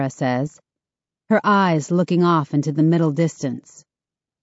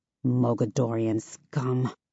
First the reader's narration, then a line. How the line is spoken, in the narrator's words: I mutter